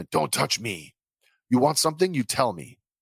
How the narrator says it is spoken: hissing at Terriman

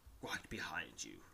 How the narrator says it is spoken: whispers

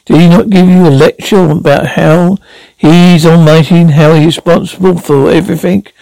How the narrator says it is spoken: Bambi sputtered

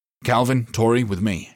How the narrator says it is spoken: he snapped

